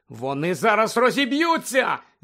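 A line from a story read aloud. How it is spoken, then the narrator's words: Shouted. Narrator (Ukrainian): закричала Герміона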